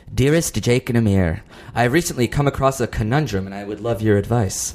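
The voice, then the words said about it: Seductive put-on letter-reading voice. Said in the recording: “What's the accent? ... she's like sort of like a seductive”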